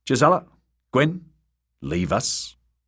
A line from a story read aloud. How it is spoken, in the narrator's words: good brother said curtly